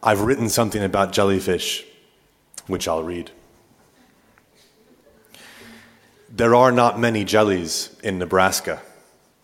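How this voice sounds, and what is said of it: Mixed English, Irish and American accent. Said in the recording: “as you can tell from my accent, I was born in Manchester, England, to Irish parents who relocated to the Great Plains of North America”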